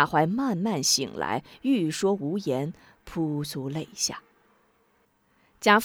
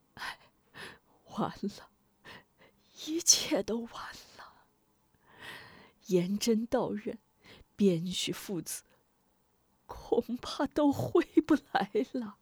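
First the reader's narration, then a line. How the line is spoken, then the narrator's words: Dejected sigh. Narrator (Chinese): 贾怀沮丧的叹道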